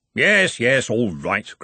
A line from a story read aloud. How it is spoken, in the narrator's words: grumbled Ridcully